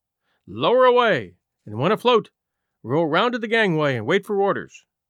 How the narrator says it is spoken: He shouted to the boats being lowered

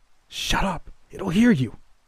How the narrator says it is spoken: hissed

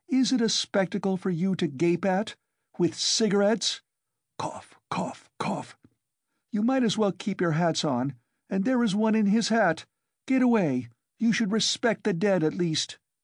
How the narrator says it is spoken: cough choked her

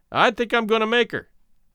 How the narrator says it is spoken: called out

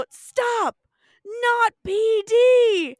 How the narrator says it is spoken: Fred yells out

